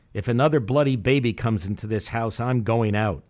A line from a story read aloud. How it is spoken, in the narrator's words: pretended to be talking to myself and said in a loud voice